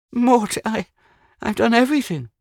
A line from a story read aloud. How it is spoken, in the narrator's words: she exclaimed